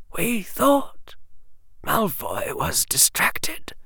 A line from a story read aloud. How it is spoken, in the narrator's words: whispered the old witch